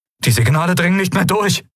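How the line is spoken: Calling out. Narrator (German): rief er

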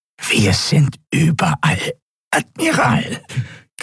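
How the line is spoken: Strained nasal croak. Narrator (German): krächzte die gepresste, nasale Stimme des Draxyl

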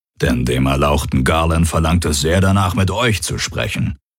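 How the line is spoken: Creature growling. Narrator (German): knurrte der Aur

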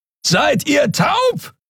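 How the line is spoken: Bellowed across great distance. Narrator (German): brüllte Kero von der anderen Seite des Portals über die Kluft zwischen zwei Planeten hinweg

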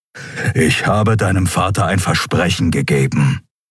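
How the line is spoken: Growl. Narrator (German): knurrte er

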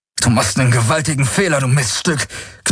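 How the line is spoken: Growled. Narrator (German): knurrte Garland auf Skarjanisch, abgesehen von dem letzten Wort

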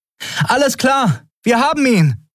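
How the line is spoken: Calling out to distant ship. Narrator (German): rief Andriel dem wartenden Schiff zu

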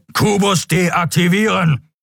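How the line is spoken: Thundering voice. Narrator (German): donnerte der schwarze Skrier

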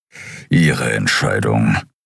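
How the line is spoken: Grumbling. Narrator (German): brummte Kero

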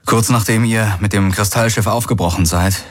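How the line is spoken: Plain. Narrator (German): sagte er

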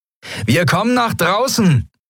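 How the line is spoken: Calling out. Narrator (German): rief Sephiron den Yadi-Piraten zu

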